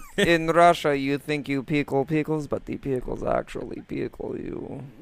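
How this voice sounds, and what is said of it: Put-on Russian accent. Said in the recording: “A good Russian accent? ... Pretty darn good.”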